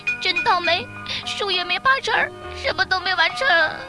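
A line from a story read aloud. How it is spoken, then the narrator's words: Crying little monkey. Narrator (Chinese): 小猴跟着也哭起来了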